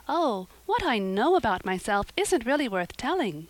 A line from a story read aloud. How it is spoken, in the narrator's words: said Anne eagerly